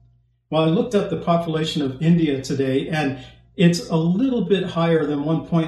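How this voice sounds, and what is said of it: Usual voice. Nothing is said of it.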